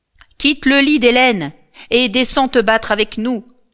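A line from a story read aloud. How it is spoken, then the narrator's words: Shouted. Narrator (French): lui crie Achille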